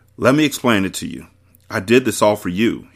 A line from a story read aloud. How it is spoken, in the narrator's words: he said